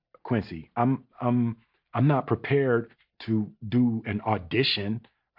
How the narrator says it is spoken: I stammered

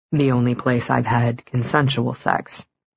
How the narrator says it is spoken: he said quietly

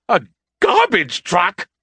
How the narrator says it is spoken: He screeched

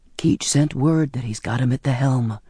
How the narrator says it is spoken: Zachariah explained, his voice low

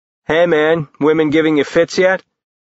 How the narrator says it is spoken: Jace chuckled

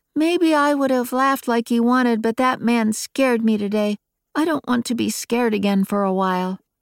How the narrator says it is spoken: Micaiah had put her head down on Daryl's shoulder, said sadly

